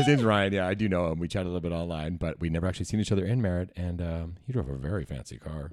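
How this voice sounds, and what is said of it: Usual voice. Nothing is said of it.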